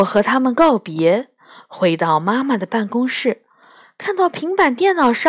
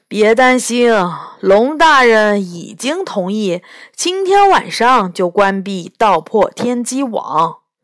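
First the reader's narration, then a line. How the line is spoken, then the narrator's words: Heavy sigh. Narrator (Chinese): 斗牛重重地叹了口气，说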